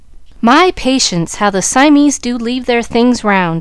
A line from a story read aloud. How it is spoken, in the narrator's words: she exclaimed